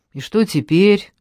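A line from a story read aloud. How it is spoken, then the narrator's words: Tired voice. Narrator (Russian): усталым голосом проговорила Ольга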